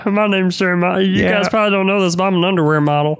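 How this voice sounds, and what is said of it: Country bumpkin voice. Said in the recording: “You sound like you sound like a dude, the dude from Survivor, the little country bumpkin.”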